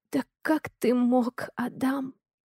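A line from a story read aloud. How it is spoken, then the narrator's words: Quiet muffled wailing. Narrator (Russian): Тихо вою в кофточку нашего сынишки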